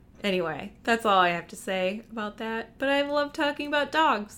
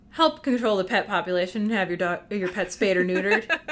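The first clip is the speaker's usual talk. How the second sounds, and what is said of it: Imitates another person's voice. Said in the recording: “my best Bob Barker impersonation”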